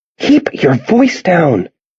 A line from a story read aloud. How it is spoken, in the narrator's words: Risa says in an angry whisper